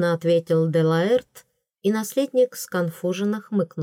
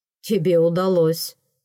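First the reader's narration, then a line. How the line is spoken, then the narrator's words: Snorting. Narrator (Russian): фыркнул наследник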